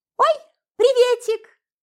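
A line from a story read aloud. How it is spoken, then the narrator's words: Shrill squeal, woman. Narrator (Russian): взвизгнула француженка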